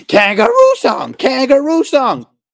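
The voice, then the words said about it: Horrible whiny voice. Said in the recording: “This horrible whiny voice.”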